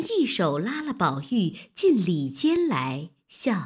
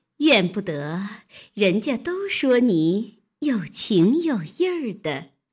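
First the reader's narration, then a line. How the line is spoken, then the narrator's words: Laughing woman. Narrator (Chinese): 那媳妇 笑道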